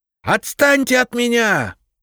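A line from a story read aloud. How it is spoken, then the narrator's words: Yelled. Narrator (Russian): заорал Швыдько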